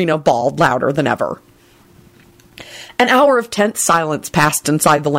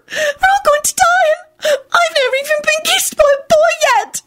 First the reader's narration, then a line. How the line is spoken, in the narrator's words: she sobbed wretchedly